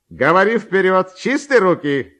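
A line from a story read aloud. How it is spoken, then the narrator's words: Shouting from afar. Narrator (Russian): кричал еще издали ему Ковалев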